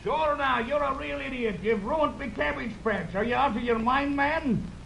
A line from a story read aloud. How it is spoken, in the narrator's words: a little man screaming